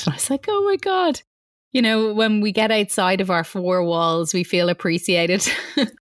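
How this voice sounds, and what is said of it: Irish accent, lilting. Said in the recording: “your beautiful Irish lilt”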